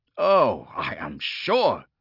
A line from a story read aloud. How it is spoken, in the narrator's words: he spat